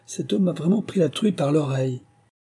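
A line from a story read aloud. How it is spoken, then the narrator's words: Coarse gleeful exclamation. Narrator (French): s'écria-t-il avec une joie grossière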